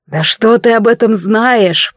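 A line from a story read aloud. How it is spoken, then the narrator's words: Growled. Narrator (Russian): прорычал мужчина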